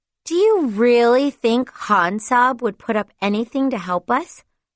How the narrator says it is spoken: Hafsa scoffed

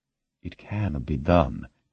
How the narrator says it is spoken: DiNardo said quietly

